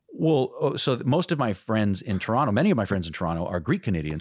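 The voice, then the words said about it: American accent, not Canadian. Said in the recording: “I don't have a Canadian accent ... I never developed a Canadian accent because I wanted to sound just like Harrison Ford ... I was fully imitating, the American accent”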